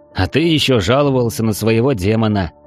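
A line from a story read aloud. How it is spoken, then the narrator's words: Snorting. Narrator (Russian): хмыкнул я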